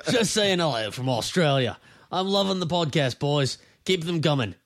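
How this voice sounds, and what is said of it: Put-on Australian accent. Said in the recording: “can you do an Australian accent? ... we're going to read your comment in what we assume is your Australian accent.”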